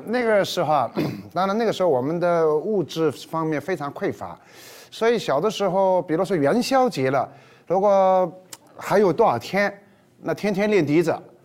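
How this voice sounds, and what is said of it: Southern Chinese accent in Mandarin. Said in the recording (Chinese): “您这口音，南方人”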